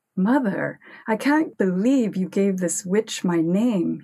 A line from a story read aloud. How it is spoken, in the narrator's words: he cried reproachfully